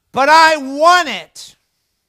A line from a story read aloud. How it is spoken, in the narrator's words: The girl decides to raise her voice even louder, and she screams out